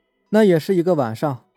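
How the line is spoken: Smiling. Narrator (Chinese): 徐璐带着笑意说

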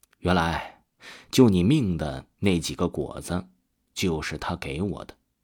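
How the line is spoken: Surprised murmur, mother. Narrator (Chinese): 曾母讶异的 忽然喃喃的对着曾大伟说

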